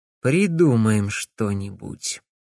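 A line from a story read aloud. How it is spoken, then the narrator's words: Grim assurance. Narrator (Russian): мрачно заверил его Алекс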